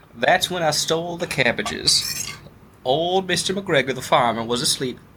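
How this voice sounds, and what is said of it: Put-on Southern accent. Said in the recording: “This is a southern accent”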